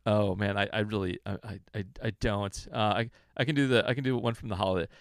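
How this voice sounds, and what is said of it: Usual voice. Nothing is said of it.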